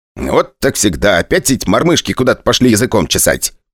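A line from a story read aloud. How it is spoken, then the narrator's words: Grumbling. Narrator (Russian): проворчал Пчелкин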